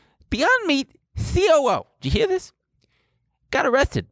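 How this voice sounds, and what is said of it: Usual voice. Nothing is said of it.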